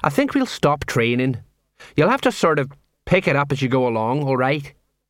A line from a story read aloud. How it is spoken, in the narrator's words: He sighed